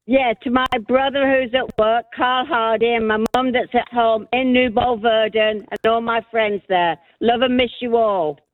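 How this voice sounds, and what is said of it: Mixed accent from two countries. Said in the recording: “you've got the wildest accent now, having spent a bit of time between the two countries”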